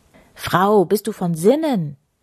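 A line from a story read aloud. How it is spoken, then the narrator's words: Mayor calling out. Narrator (German): rief der Bürgermeister, also Kirko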